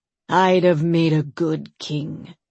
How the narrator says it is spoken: rasped Yarn, one of the sailors

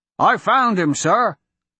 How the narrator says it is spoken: the soldier shouted with a hint of relief

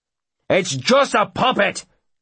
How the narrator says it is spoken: Brogan bellows at his men

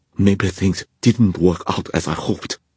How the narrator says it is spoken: she panted

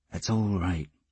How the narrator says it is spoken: he said in a low voice

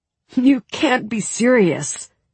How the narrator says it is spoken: Mal said with a disbelieving laugh

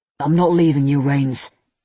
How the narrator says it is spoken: he said firmly

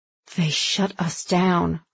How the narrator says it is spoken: Lyra whispered, her features turning to stone

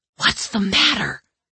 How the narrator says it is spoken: I hissed

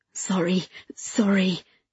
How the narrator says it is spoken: she muttered

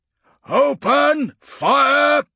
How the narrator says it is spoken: roared Domitian

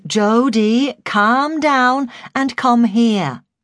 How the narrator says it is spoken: I said evenly

